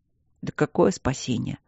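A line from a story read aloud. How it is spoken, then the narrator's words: Gloomy, huge man. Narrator (Russian): мрачно произнес огромный друг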